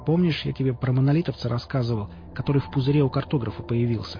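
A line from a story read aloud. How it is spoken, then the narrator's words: Plain. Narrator (Russian): спросил химик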